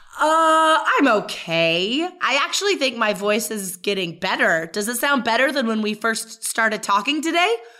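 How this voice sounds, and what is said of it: Hoarse, partly lost voice. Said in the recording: “I lost my voice a little bit”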